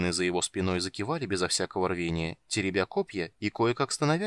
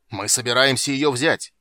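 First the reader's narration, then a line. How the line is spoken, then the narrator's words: Furious forced battle yell. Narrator (Russian): яростно заорал Танин, явно пытаясь вызвать в себе немного энтузиазма перед битвой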